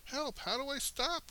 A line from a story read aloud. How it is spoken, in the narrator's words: wailed the frightened moose